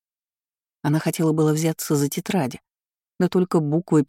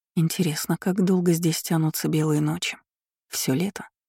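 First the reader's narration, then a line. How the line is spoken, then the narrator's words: Muttering. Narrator (Russian): Пробормотала Севара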